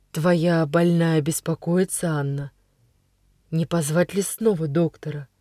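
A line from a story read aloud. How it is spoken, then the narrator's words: Quiet, kind, sad older man. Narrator (Russian): седой господин с добрым печальным лицом и говорит тихо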